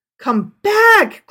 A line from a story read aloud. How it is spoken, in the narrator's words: cried the father